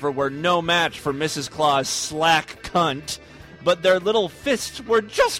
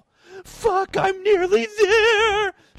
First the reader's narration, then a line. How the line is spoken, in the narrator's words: she cried, just before her body began to shudder in orgasm